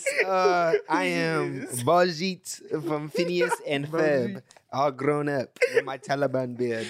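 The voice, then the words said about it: Put-on character accent. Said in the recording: “Why you do the accent? ... I had to say it like that because me saying it regularly, it makes me even more cringe”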